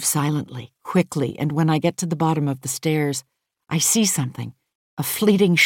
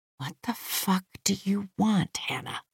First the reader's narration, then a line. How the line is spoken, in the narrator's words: I whisper